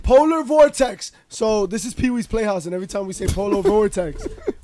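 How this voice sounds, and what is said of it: Hoarse, strained voice. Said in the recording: “the champ has been doing a lot of screaming. And my voice is jacked”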